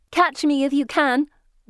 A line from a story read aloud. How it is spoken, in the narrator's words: one shouts